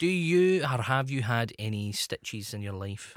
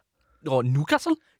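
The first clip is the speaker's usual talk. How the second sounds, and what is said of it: Newcastle (Geordie) accent. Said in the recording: “Let me hear your Newcastle accent. ... that's even better than mine.”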